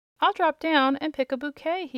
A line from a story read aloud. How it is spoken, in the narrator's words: he exclaimed